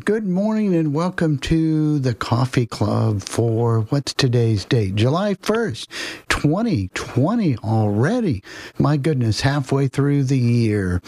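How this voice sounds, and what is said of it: Scratchy, hoarse voice. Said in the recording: “My voice is a little scratchy.”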